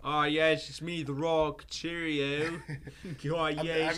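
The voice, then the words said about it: The Rock in English accent. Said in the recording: “Why do you give him that accent? ... English”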